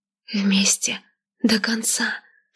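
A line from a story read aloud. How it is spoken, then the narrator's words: Whisper. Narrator (Russian): шепнула она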